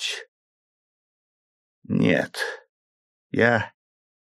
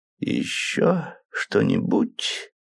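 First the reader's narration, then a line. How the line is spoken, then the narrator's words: Slow repetition. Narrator (Russian): медленно повторил мистер Джеллико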